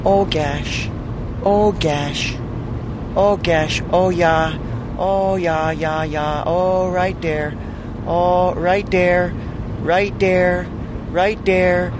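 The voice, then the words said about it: Minnesota woman moaning impression. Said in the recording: “my impression of a Minnesota girl having sex”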